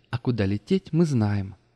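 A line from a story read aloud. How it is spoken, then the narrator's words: Cheerful. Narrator (Russian): весело заключила Марта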